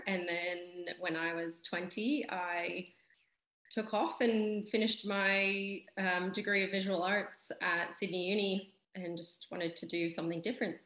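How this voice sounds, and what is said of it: Non-Australian, Canadian-sounding accent. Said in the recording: “your accent's not from Sydney. Whereabouts are you from?”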